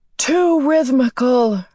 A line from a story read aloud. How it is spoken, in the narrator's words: her father shouted